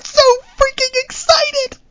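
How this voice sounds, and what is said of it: Excited, rising high-pitched voice. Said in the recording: “my voice is getting higher and higher”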